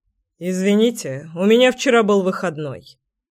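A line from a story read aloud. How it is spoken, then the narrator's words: Calm deep bass. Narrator (Russian): спокойно пробасил Кир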